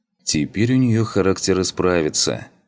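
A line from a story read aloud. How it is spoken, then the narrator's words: Snort. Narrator (Russian): хмыкнул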